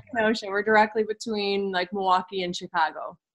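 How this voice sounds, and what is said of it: Wisconsin accent. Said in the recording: “I love your accent ... it sounds way cool”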